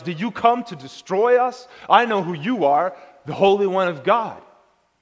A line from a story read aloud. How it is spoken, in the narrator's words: He shouts